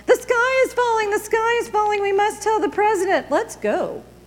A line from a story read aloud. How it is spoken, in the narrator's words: So Chicken Licken and Ducky Lucky and Goosey Lucy and Cocky Locky all got together and yelled